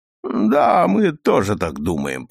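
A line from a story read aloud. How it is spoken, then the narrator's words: Through gritted teeth. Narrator (Russian): процедил Бэггетт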